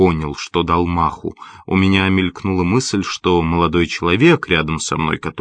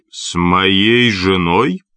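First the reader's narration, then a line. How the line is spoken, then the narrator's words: Growled with a smirk. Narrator (Russian): прорычал и усмехнулся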